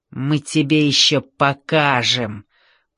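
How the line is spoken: Hissed threat. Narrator (Russian): прошипел Ринго

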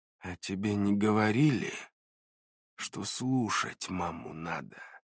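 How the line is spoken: Quiet, careful question. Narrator (Russian): Тщательно взвешивая каждое слово, тихо спросил милиционер

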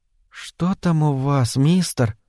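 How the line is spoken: Whispering. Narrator (Russian): прошептала

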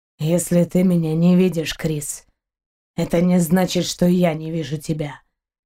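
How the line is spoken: Hoarse voice. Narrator (Russian): хрипло проговорил капитан

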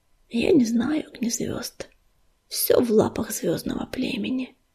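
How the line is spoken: Quiet. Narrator (Russian): Пепелица тихо сказала

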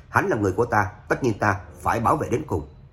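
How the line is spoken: Cold, firm. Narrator (Vietnamese): Trác Phàm lạnh lùng hừ một tiếng, kiên định nói

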